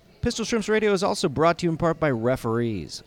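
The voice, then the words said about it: Exaggerated sports radio announcer voice. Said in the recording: “my Pistol Shrimps radio voice”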